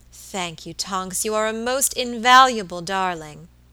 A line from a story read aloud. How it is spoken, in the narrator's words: exclaimed Mrs